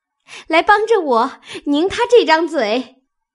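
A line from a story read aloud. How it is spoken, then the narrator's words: Laughing plea. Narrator (Chinese): 笑着央告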